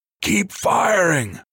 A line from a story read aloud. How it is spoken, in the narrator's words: the corporal screamed at Sellers and Bartlett